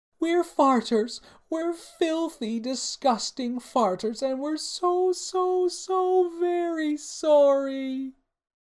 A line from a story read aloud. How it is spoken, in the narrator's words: the two princesses cried as one